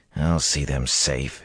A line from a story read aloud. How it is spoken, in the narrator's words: muttered under his breath